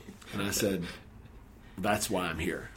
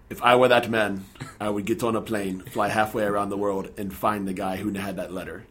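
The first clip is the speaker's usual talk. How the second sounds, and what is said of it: Put-on foreign accent. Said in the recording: “I'll do my best accent here”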